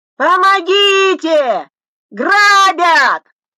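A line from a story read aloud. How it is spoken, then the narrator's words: Frightened shout. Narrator (Russian): крикнула смятая, испуганная женщина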